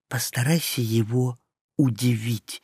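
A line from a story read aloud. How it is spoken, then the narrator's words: Whispered. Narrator (Russian): прошептал я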